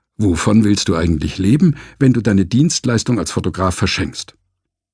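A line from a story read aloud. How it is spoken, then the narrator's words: Inner voice growling. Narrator (German): sein innerer Finanzminister knurrte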